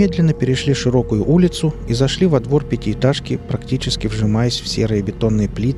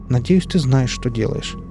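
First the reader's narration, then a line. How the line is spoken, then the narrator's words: Sighing. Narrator (Russian): вздохнула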